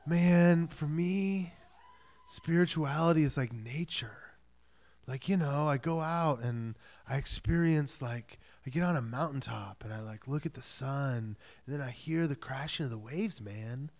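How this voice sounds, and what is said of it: Hushed West Coast California accent. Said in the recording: “usually in hushed tones and maybe a like West Coast California accent”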